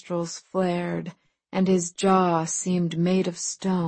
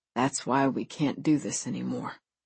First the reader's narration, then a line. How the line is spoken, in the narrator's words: he muttered